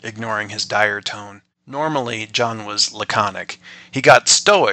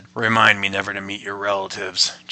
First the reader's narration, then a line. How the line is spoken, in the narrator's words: John muttered